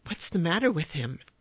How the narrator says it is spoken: Smith asked anxiously

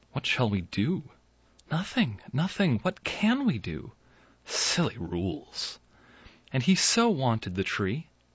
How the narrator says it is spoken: after their unsuccessful clash with the interplanetary officials, the mother and father whispered to each other

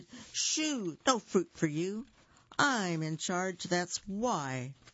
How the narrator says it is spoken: he shouted

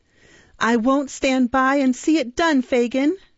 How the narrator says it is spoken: cried the girl

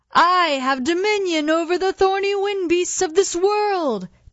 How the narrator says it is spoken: the Earthman cried

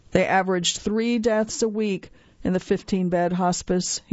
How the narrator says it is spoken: he said

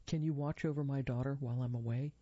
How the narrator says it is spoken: he asked

